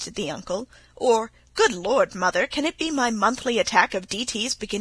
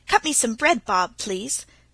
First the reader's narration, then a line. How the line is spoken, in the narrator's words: said Tilly hastily